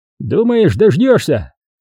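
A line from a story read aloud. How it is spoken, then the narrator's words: Gendarme's mocking chuckle. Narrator (Russian): хохотнул жандарм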